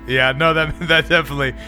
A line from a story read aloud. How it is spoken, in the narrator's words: he laughs like pretty heartily